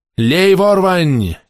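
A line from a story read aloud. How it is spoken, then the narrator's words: Shout. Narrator (Russian): крикнул Дик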